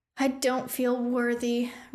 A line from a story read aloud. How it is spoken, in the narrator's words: Rune sighed dramatically